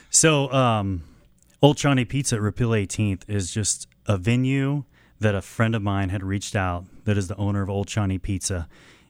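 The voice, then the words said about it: Smooth radio-style voice. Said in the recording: “You have a really good radio voice.”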